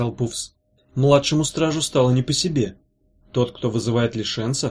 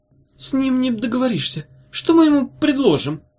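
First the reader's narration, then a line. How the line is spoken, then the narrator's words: Timid babbling. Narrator (Russian): пролепетал он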